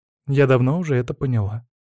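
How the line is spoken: Said calmly. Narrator (Russian): спокойно сказала Варя

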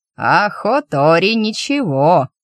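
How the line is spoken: Creaky old man's voice. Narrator (Russian): проскрипел голос старика

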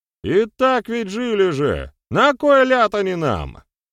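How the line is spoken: Shout from the back. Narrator (Russian): выкрикнул кто-то из задних рядов

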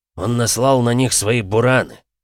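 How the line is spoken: Growl through teeth. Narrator (Russian): рыкнул Вьюга сквозь зубы

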